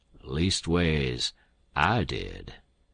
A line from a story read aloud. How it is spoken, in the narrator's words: the king drawls out